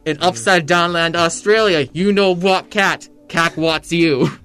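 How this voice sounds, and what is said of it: Mock Russian accent parody. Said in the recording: “Was that supposed to be an Australian accent? ... No, it wasn't. It was an in Soviet Russia parody.”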